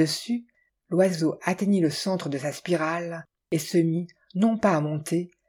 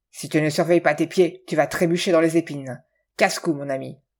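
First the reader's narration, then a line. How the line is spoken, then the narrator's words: Menacing growl. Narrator (French): Cet avertissement serviable avait été grogné d'un ton menaçant, tout à fait hors de saison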